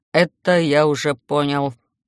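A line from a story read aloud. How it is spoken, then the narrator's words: Grumble. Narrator (Russian): буркнул он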